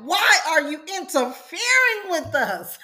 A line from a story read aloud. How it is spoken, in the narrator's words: a man in the synagogue who was possessed by an evil spirit cried out